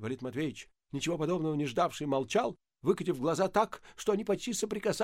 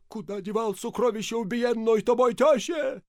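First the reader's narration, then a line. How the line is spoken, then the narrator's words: Hoarse shout. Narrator (Russian): закричал охрипшим голосом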